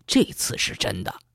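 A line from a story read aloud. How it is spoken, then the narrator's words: Low voice. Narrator (Chinese): 还是低声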